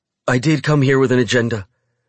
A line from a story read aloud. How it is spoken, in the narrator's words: she says quickly